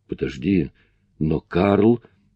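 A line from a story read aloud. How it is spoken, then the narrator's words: Exclamation. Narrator (Russian): воскликнул я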